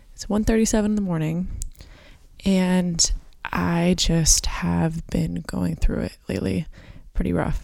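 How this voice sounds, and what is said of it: Super raspy, tired voice. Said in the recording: “my voice is super raspy and I'm tired”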